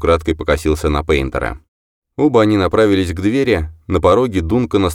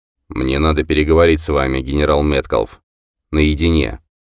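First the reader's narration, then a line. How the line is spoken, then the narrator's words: Cold, curt. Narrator (Russian): он холодно бросил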